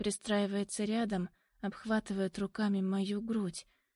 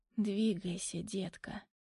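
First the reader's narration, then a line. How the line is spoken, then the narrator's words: Hoarse male voice. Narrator (Russian): хриплый голос Демьяна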